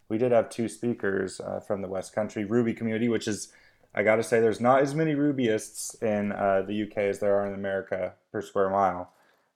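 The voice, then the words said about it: American English accent. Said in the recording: “despite the accent, you guys can tell I'm American”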